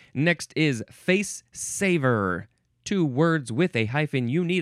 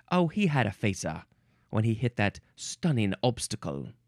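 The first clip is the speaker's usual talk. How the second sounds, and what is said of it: Weak attempted British accent. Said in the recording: “Can he do this in a British accent? There are so many British accents, and he can barely do one ... Meh. I give it a 25%.”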